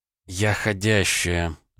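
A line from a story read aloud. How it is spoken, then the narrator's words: Sigh. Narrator (Russian): вздохнула Наталья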